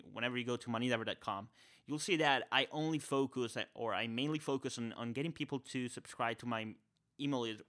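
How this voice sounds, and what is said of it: Spanish accent. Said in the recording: “this accent guy, this Spanish guy”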